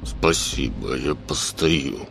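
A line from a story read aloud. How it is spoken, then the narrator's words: Through gritted teeth. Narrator (Russian): сквозь зубы ответил тот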